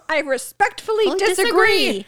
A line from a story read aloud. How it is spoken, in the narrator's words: Anthony likes to yell